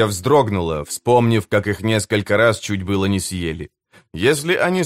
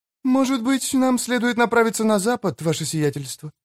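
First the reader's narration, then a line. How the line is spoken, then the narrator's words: Timid suggestion. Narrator (Russian): робко предложила мисс Пай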